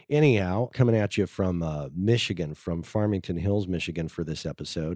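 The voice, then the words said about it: Congested voice from a cold. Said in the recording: “Got a little bit of a cold for you today, so you can hear it in my voice. ... I got a little drainage going on here.”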